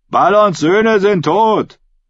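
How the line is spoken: Calling out. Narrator (German): rief Ralf der Hinker

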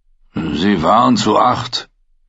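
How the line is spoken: Growling. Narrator (German): knurrte der Great John

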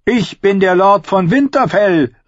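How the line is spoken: Habitual proud proclamation. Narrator (German): rief, wie er schon hunderte Male zuvor einen Titel für sich beansprucht hatte

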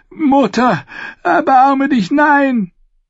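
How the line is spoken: Screaming. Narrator (German): schrie er

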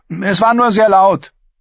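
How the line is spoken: Calling back. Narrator (German): rief Arrior zurück

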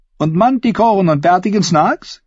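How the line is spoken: Giggled. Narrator (German): Cersei kicherte

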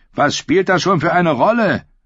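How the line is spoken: Shout. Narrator (German): schrie ihn Darion einmal an

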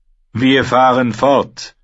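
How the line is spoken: Clear commanding voice. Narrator (German): sagte er mit klarer Stimme, die den Aufruhr zum Verstummen brachte

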